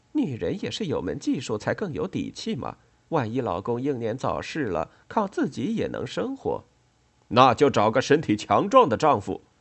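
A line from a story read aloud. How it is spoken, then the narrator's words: Amused, lecturing. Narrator (Chinese): 李子不禁哑然失笑，教训冠太郎说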